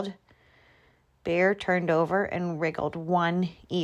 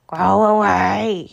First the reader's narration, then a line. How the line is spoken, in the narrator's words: growled